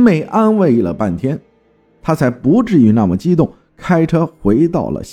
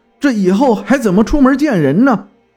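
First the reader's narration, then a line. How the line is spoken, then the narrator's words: Frantic agitated shout. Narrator (Chinese): 情绪有点疯狂了，激动的喊道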